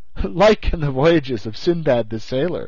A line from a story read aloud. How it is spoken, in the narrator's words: I answered, laughing